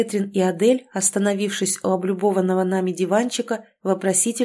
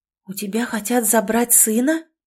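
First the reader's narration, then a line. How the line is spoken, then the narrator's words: Shocked whisper. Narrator (Russian): потрясенно прошептала Алекс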